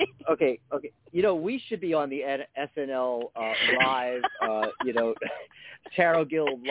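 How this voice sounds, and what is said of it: Usual voice. Nothing is said of it.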